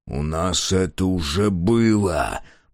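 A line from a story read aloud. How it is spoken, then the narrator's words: Growl. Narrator (Russian): прорычал Мюррей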